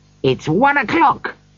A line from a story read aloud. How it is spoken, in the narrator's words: cried Scrooge delightedly